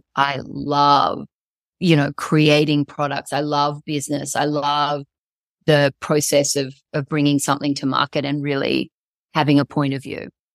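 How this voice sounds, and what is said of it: Australian accent. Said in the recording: “you can hear your lovely Australian accent.”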